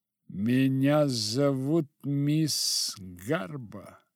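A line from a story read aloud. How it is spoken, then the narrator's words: Icy female voice. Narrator (Russian): ледяным голосом ответила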